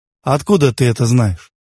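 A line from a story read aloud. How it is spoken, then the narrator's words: Mocking, hiding wounded pride. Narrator (Russian): насмешливо спросил он, скрывая оскорбленную гордость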